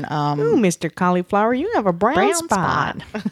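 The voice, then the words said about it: Funny put-on character voice. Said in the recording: “we just made a funny voice”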